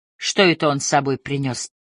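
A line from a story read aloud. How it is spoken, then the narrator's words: Quiet question. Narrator (Russian): тихонько спросила я Поля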